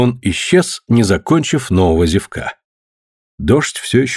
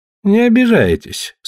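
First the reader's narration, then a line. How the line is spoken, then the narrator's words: Sleepy. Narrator (Russian): сонно произнес Лик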